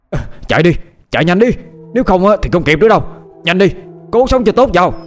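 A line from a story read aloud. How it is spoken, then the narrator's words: Urgent shout. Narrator (Vietnamese): lão Mao quát lên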